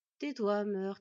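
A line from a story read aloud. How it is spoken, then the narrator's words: Exasperated crow sighing. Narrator (French): soupira le premier corbeau excédé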